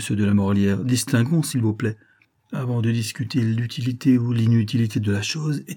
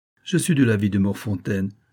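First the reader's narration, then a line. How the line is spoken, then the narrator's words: Plain. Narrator (French): dit Passecroix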